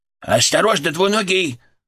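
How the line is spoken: Sharp alarmed inner voice. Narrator (Russian): голос Фырка прозвучал в моей голове резко и тревожно

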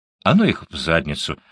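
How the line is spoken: Polite reply. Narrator (Russian): ответила все тем же учтивым тоном

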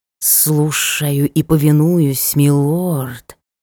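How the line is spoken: Serpent's hiss. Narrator (Russian): прошипел змей

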